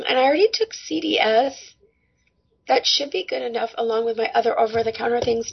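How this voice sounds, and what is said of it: Raspy, strained voice. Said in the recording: “my voice is kind of raspy, hard to talk a little bit”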